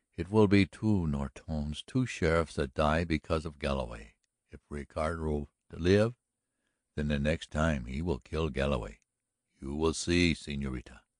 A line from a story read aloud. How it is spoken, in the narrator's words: mumbled Ignacio